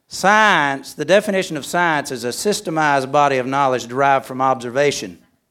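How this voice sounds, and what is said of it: Regional accent with drawn-out syllables. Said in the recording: “How can y'all like my accent? Science. There's three or four three or four, what do you call them things, syllables in there that most people don't use. ... Y'all the ones talk funny, not me.”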